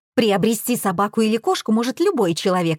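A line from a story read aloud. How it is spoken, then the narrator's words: Plain. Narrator (Russian): сказала Никитина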